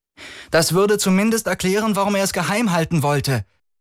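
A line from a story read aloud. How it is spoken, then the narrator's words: Said loudly, woman. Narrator (German): sagte sie laut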